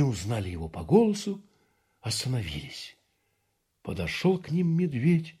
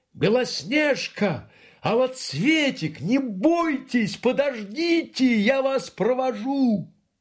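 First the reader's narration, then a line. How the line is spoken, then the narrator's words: Shouted after them. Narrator (Russian): медведь крикнул им вслед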